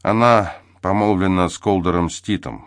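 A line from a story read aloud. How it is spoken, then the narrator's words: Even voice. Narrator (Russian): ровным голосом произнес Спинг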